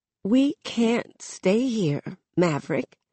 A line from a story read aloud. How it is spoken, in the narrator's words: she says, and her voice is shaky, like she's been holding something in this entire time and is just now letting it out